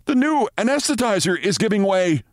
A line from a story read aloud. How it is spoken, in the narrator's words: shouted an intern